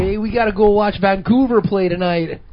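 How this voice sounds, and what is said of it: Exaggerated put-on Canadian accent. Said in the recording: “Canadian accent”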